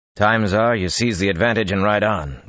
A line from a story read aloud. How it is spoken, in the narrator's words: Bashir growled